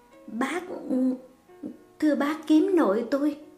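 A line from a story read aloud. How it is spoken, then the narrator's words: Stammering. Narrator (Vietnamese): Giọng nàng lắp bắp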